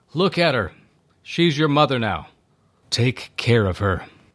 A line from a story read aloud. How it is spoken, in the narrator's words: Jesus called out